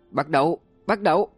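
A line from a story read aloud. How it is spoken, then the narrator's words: Loud yelling. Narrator (Vietnamese): Bạch Kình lớn tiếng gào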